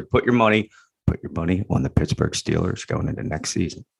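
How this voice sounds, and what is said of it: Whispering. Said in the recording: “Thank you for whispering that”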